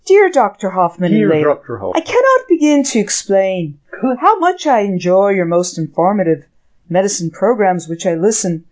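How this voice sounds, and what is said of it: Reading in an Irish brogue. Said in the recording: “Can you read with a brogue? ... Good job.”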